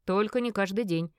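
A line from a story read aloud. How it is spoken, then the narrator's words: Loud laughing. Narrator (Russian): громко рассмеялся он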